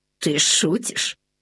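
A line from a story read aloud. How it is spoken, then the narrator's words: Doubtful mumble. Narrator (Russian): недоверчиво промямлил Лабан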